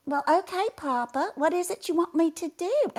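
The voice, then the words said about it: Cute little Southern girl voice. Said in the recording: “She's this cute little Southern girl”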